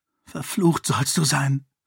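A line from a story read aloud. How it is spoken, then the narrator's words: Hissing. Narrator (German): zischte sie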